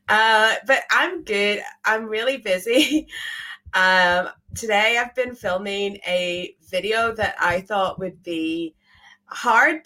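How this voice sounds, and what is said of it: Strained, fading voice. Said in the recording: “I feel like I'm losing my voice a bit, and I think that it's going to be gone by Monday”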